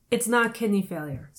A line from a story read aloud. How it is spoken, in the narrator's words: said Jolie